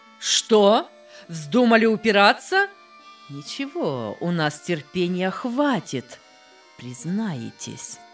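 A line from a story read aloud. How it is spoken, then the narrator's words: Investigator's angry raised shout. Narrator (Russian): Следователь повысил голос, рассердился и крикнул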